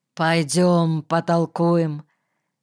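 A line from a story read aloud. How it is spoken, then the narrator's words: Low, muffled. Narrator (Russian): Кирка сказал глухо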